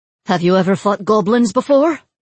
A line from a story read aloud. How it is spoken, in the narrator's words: Mila asked breathlessly